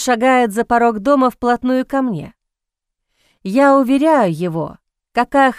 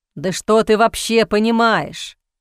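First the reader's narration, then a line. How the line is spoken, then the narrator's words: Scoffing snort. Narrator (Russian): фыркает он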